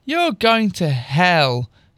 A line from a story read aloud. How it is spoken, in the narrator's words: she said a prep, laughing